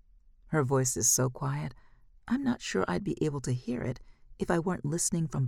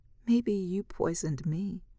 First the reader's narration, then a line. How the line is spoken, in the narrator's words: she laughs weakly